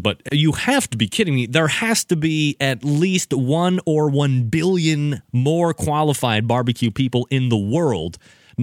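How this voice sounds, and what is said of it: New York accent. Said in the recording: “That's my New York accent coming across.”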